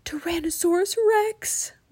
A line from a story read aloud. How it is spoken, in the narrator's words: whispered Jack